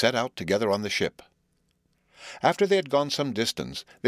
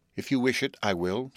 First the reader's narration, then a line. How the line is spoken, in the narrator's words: said the hermit